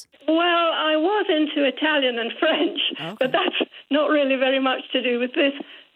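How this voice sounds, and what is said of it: Scottish accent. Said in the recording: “I am Scottish, I'm not English ... you've got a very nice accent”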